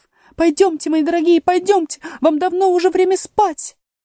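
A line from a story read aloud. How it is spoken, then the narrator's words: Trembling little voice, urging. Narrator (Russian): канарейка дрожащим голоском стала торопить своих птенцов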